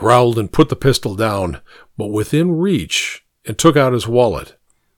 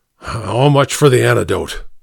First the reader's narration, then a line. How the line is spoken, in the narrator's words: Sangstrom growled